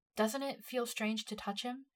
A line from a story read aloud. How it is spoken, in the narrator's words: she said